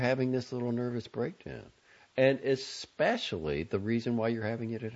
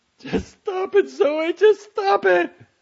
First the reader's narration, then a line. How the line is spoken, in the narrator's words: Franny said, sobbing